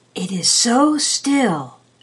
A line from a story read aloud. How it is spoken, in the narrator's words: the Rat whispered again at last